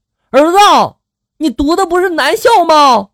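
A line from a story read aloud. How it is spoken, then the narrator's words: Startled shout. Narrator (Chinese): 爸爸猛地回过神来，大喊了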